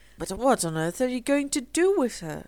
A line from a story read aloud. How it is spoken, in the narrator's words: cried Philip